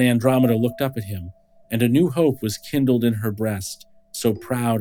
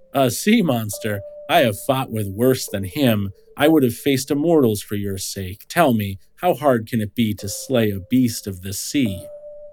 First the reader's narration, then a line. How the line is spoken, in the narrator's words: Perseus laughed and said